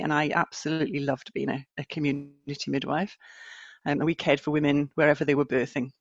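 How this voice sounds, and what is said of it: Northern English accent. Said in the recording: “as you can probably hear from my accent, mm-hmm. and from the north of England”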